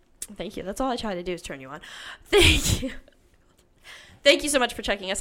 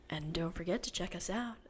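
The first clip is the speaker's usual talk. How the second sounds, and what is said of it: Sexy voice imitating another person. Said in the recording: “I was doing my sexy Jackie voice. ... I'm turned on.”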